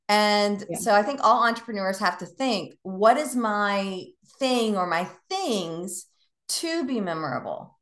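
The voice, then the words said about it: Southern American accent. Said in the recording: “I'm Southern and I let the accent fly.”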